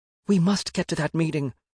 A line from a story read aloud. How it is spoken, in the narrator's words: Quelf pleaded